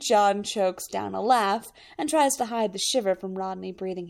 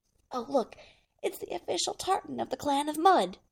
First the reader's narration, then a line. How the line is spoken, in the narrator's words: Rodney leans close to John and whispers